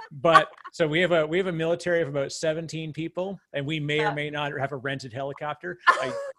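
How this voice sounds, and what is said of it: Canadian accent. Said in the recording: “I'm Canadian, as you can tell by my odd accent.”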